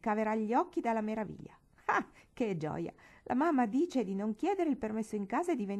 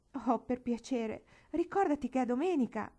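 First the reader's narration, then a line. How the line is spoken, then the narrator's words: Longing plea. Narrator (Italian): implorò, con un grandissimo desiderio proprio in fondo al cuore di poter andare anche lei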